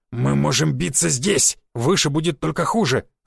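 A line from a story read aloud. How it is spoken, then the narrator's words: Growl. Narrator (Russian): зарычал Буян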